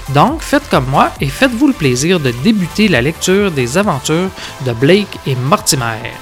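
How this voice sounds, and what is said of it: Québécois French Canadian accent. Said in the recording (French): “vous êtes Canadien? Vous avez l'accent? ... Moi, je suis un Canadien québécois.”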